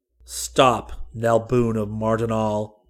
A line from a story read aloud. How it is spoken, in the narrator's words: Seton thundered in the Mardonalian tongue and at the top of his powerful voice